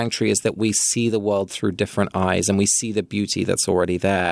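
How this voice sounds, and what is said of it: Usual voice. Nothing is said of it.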